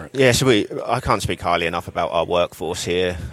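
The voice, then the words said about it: British accent with slight Texan tinge. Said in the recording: “I think I'm hearing a little bit of it, though, the Texas-British accent ... it's unique.”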